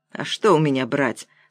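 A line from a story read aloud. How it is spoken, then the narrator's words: Calm reply. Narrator (Russian): спокойно ответила Вера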